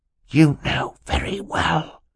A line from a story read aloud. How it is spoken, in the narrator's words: hissed to his sister